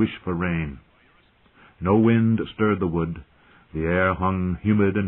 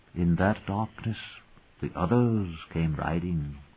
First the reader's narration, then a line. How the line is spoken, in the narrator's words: she used to say, dropping her voice lower and lower